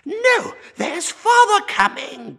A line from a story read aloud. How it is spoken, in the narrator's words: cried the two young Cratchits, who were everywhere at once